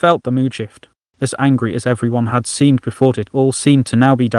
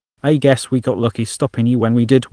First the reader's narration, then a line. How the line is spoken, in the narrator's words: one Venlil said